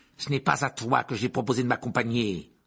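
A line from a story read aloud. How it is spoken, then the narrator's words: Growling, scolding. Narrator (French): gronda l'oncle Vernon en le voyant arriver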